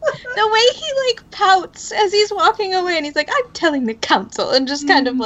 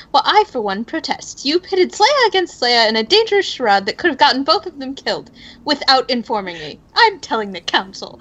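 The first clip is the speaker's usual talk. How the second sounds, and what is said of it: Put-on accent imitating a character. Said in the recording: “I love your accent.”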